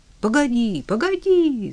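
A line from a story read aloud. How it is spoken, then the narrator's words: Shouting. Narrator (Russian): закричал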